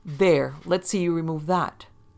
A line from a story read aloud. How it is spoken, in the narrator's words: exclaimed